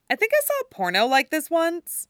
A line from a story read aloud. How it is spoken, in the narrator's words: Erica says cheerfully